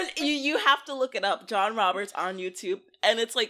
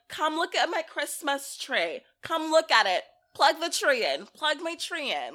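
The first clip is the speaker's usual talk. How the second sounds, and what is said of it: Put-on heavy Brooklyn accent. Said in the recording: “he's your typical New York, South Brooklyn, or Queens mom ... with the heavy Brooklyn accent”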